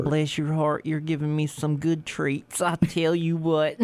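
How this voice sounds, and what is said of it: Put-on Southern US accent. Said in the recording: “having, like, a southern accent”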